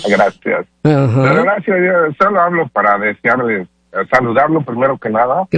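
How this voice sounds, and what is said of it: Good radio announcer voice. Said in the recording (Spanish): “tienes voz de locutor, tú, muñeco, muy buena voz”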